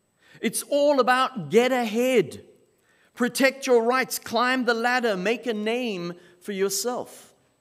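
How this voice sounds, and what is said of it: South African accent. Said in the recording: “my accent, and you're trying to figure out where on earth am I from. I grew up in South Africa. I was born and raised in South Africa.”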